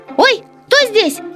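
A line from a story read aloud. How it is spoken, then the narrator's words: Startled squeal. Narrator (Russian): завопил хомяк, наступив на спящего котенка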